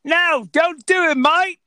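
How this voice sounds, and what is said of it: Put-on Australian accent. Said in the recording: “I'm trying to do my Australian accent.”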